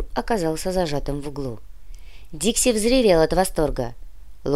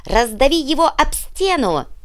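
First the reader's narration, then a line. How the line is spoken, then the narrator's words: Yelled. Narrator (Russian): завопил дворецкий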